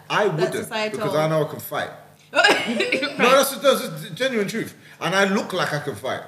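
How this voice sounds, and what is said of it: Deep voice, Scottish accent. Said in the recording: “especially in Scotland, the accent, the deepness of my voice”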